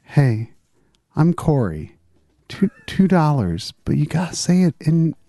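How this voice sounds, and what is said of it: Close, soft ASMR-style voice imitation. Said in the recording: “early Corey Imlig impression ... ASMR version of. I mean, that's the early videos. So I had to get really close”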